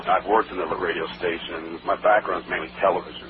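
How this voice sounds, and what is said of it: Smooth radio-style speaking voice. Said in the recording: “People tell me I have this radio voice.”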